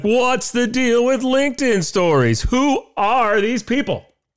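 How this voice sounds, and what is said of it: Poor Jerry Seinfeld impression. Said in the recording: “say it in like the Jerry Seinfeld voice, which I can't really do ... That's the worst impression ever.”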